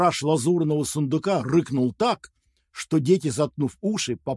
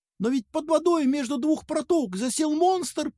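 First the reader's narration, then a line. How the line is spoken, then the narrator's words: Little mouse squeak. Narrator (Russian): пискнул мышонок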